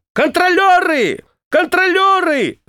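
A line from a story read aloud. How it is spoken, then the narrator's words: Shout. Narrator (Russian): Она крикнула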